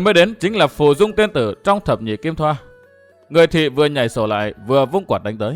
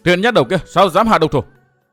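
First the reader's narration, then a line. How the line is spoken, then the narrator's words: Sudden shout. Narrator (Vietnamese): Bất thình lình có tiếng quát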